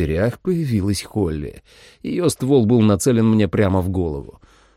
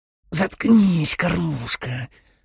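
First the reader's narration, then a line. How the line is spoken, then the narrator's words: Hissed. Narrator (Russian): прошипела она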